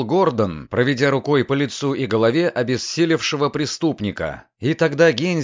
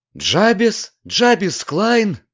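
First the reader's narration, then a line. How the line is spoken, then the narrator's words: Surprised exclamation. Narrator (Russian): в удивлении воскликнул молодой адвокат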